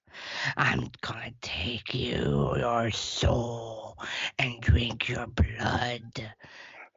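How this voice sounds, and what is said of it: Scary villain character voice. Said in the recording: “did a great little voice acting audition there ... That's pretty terrifying.”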